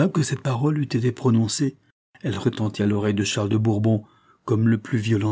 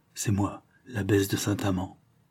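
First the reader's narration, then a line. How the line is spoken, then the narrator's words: Woman's low reply. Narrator (French): une voix bien connue, une voix de femme, répondit tout bas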